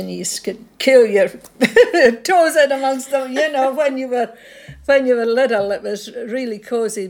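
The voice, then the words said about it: Scottish accent. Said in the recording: “that Scottish accent.”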